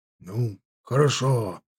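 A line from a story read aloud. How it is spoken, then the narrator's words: Frowning grumble. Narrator (Russian): нахмурившись, пробурчал Бомбель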